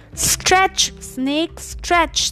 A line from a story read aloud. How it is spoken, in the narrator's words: they all shouted and called out